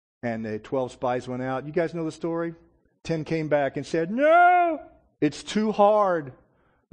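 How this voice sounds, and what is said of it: Mocking Kermit the Frog-like voice. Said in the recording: “don't do the mocking voice. It's too much like Kermit the Frog.”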